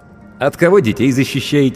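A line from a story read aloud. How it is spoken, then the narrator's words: Snide question. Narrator (Russian): ехидно поинтересовался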